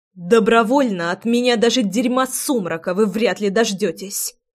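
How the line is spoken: Angry hiss. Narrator (Russian): процедила я злобно

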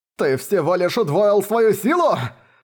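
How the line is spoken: Hoarse, coughing blood, young man. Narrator (Russian): прохрипел сквозь кровавый кашель молодой человек

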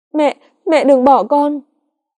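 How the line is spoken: Sobbing, crying. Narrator (Vietnamese): Cô mếu máo khóc thành tiếng

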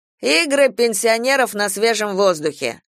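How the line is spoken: Mocking. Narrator (Russian): насмешливо сказал ООО

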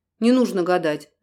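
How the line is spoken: Sharp interruption. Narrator (Russian): резко прервал его Дронгу

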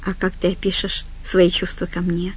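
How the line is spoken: Plain. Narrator (Russian): спросил он

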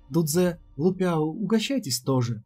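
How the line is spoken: Plain. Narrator (Russian): сказала Сяо Нин

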